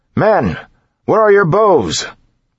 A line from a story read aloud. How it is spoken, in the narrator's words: His voice, however, was lost in the shouting